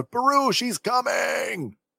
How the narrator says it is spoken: Owen shouts out

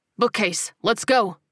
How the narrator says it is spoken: Miles barked

